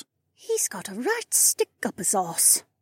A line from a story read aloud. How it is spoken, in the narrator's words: Becca said under her breath